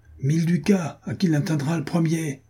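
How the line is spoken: Shouted. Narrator (French): cria Jean de Werth

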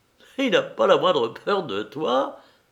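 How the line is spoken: Laughing. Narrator (French): dit Henri en riant

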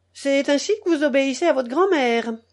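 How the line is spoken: Tragic exclamation. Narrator (French): s'écria Saint-Jérôme d'une voix tragique

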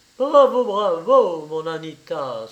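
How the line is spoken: Male exclamation. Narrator (French): s'écria-t-il

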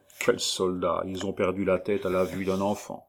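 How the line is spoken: Vexed murmur. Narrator (French): Je l'entendis murmurer avec dépit

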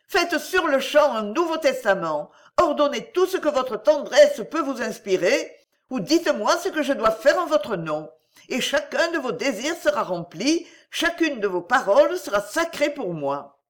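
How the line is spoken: Exclaimed. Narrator (French): s'écria Eugénia

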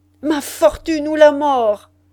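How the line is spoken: Raging cry. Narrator (French): s'écria-t-il dans un effroyable accès de rage

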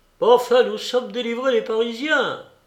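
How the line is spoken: Exclaiming. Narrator (French): s'écria Max

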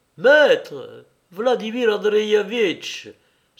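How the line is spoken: Exclaimed. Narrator (French): s'écria-t-il

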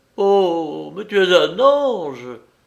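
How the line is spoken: Tearful tender exclamation. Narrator (French): s'écria Balthazar versant des pleurs d'attendrissement

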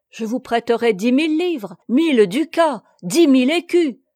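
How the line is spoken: Many voices crying out. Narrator (French): s'écria-t-on de toutes parts

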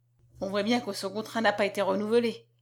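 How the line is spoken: Murmured. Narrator (French): murmura

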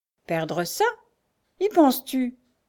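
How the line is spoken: Shrew exclaiming. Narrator (French): s'exclama la mégère

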